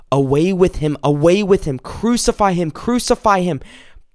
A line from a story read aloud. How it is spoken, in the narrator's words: they shouted out